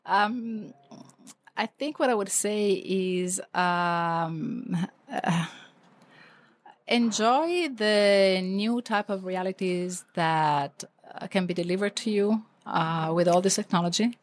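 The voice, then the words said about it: Voice affected by a bad cold. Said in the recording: “this is not my real voice. I have a really bad cold”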